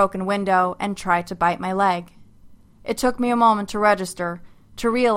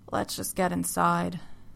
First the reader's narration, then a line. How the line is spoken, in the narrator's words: Don said quietly